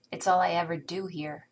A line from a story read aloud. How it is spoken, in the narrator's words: Tony snaps